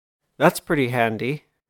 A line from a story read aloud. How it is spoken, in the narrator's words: chuckled